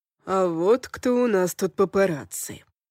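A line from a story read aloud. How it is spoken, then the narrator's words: Smirking grunt. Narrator (Russian): хмыкнул он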